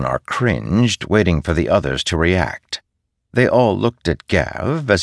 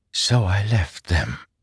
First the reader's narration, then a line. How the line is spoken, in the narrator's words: she whispered